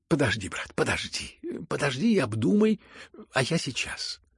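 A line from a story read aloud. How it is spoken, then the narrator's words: Hurried, nearly frightened. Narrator (Russian): проговорил он в торопях и почти испуганно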